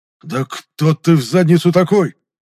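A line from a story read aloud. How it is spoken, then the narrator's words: Hoarse rasp. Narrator (Russian): прохрипел здоровяк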